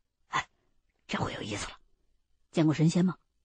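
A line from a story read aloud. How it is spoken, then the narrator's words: Low voice. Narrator (Chinese): 秦一恒低声的说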